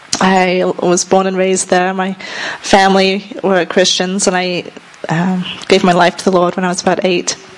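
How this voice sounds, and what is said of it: British accent. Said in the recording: “my accent is from the UK.”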